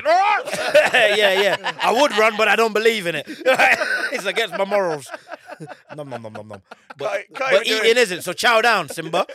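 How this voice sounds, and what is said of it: Playful impression of a lion. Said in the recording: “Great impression. Impression. Really good.”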